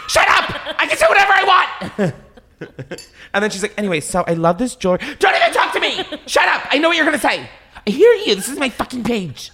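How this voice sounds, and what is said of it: Scary angry shouting impression. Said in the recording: “my impression of that is, like, so scary”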